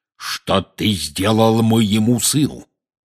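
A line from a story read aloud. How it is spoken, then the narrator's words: Menacing growl. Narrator (Russian): грозно зарычал он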